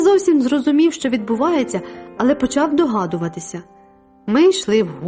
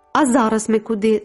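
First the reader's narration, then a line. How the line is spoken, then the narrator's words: Plain. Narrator (Ukrainian): запитав я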